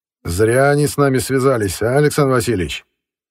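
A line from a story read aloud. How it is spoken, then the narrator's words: Cheerful question. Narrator (Russian): весело поинтересовался у адмирала Беренс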